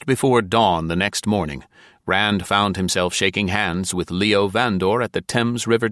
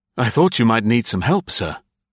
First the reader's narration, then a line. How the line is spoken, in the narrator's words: gasping, bleeding from glass cuts, he said